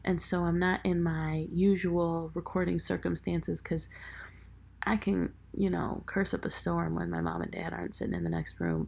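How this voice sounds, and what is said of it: Quiet whispered voice. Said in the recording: “I'm whispering a little bit”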